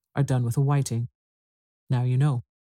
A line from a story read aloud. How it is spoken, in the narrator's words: the Gryphon went on in a deep voice